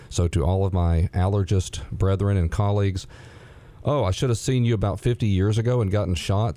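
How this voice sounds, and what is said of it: Congested, sinusy, slightly hoarse voice. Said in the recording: “sounding so sinusy, and maybe I sound hoarse ... the pollens are overwhelming me”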